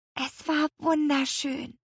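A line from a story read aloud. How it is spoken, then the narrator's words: Whispered. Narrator (German): flüsterte Lea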